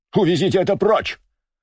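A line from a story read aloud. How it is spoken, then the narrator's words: Shouted, leaping up. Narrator (Russian): закричал Туров, подскочив с места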